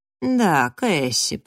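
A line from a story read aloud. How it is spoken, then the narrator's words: Purring. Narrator (Russian): промурлыкал Фрэнк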